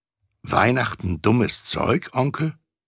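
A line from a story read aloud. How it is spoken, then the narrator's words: Plain. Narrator (German): sagte Scrooges Neffe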